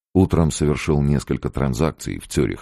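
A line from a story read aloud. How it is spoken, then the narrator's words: Plain. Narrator (Russian): сказал он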